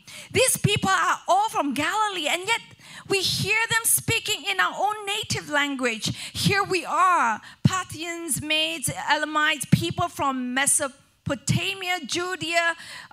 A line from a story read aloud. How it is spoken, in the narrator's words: They exclaimed